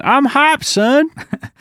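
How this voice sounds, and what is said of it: Put-on Southern US accent. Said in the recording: “That was my southern accent.”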